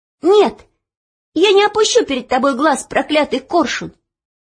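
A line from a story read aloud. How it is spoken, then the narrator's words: Sudden defiant cry. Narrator (Russian): вдруг крикнула она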